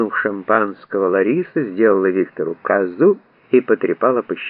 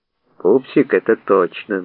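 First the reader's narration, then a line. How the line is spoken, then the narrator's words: Gloomy agreement. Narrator (Russian): мрачно согласился Виктор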